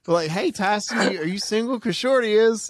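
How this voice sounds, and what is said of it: Bad put-on Oklahoma accent. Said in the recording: “that's a terrible Oklahoma accent, I know”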